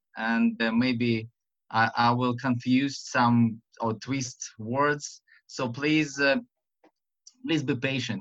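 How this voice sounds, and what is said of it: Russian accent speaking English. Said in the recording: “to be patient to this Russian and to my silly accent”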